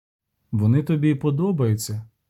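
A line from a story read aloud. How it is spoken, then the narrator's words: Calm question. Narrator (Ukrainian): запитав спокійно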